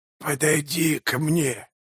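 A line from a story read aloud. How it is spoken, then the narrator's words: Hoarse wheeze. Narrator (Russian): прохрипел он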